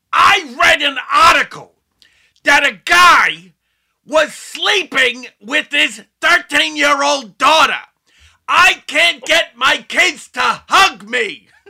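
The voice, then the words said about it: Imitates another person's voice. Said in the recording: “doing my Gilbert Godfrey impression. I'll try it now.”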